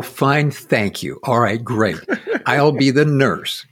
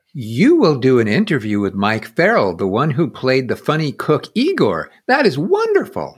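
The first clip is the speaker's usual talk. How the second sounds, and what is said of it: Slightly higher-pitched nurse voice. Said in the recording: “I'm not going to do a silly voice. We'll just do it a little bit higher than my own voice.”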